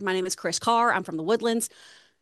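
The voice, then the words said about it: Exaggerated twangy East Texas accent. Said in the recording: “I'm from Texas, so we hit that. I'm East Texas too, so I tend to talk more up in like my nose and head... I get really twangy and hit all of my R's real hard... you just sounded like two characters from King of the Hill. So you're definitely got the Texas down”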